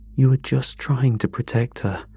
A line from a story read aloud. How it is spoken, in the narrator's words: said, my voice shaking